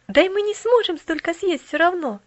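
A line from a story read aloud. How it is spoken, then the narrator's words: Laughing. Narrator (Russian): засмеялась миссис Керри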